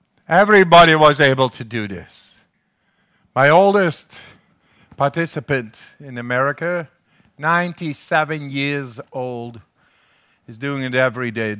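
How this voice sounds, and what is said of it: Dutch accent in English. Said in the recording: “They call me the German... I'm the crazy Dutchman, man... Must be my accent in the, in the, in English.”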